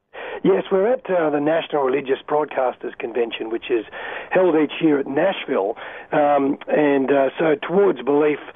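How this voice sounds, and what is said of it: Voice sounds unwell, not so good. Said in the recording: “Just a shame my voice is not so good today ... if not the tone of your voice today ... You must have caught some sort of a bug”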